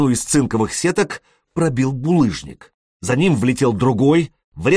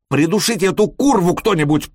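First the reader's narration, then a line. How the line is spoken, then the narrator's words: Shouted. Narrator (Russian): прокричал Элис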